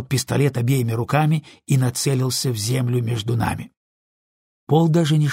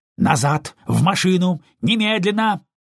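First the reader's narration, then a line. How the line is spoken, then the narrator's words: Deputy yelling. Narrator (Russian): заорал помощник шерифа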